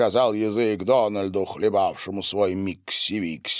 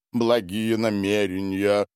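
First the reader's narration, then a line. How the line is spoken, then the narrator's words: Sad, mouth full. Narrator (Russian): грустно кивал Синзо, жуя рис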